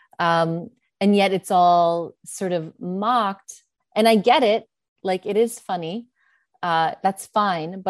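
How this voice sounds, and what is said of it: New York American English accent. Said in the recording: “So I use a certain type of American English and it's not put on. The accent is not put on. This is the only way I know how to talk. This is not a practiced accent. I'm from New York.”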